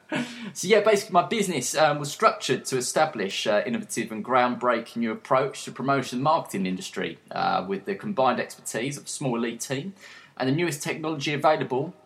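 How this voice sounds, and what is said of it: Essex English accent. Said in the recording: “I'm based in Essex in the UK ... you'll probably know by the accent. If you're in Britain, you'd probably heard the accent before”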